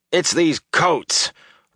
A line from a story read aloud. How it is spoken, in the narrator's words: Rand growled